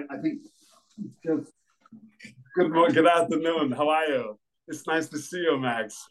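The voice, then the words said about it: Arnold Schwarzenegger impression. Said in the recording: “a very good Arnold Schwarzenegger impression ... Could you channel Arnold?”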